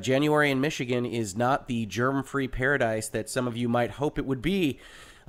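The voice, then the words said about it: Deeper, rough, gruff sick voice. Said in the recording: “apologize for my voice ... I seem to have caught a little bug ... you're going to have to listen to me with a slightly deeper, more rough and gruffly voice”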